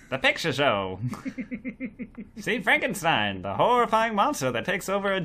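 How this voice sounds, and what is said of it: Put-on old-Hollywood transatlantic accent. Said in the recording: “You've got a very good transatlantic accent voice.”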